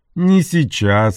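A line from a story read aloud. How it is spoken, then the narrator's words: Laughing. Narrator (Russian): рассмеялся Энтони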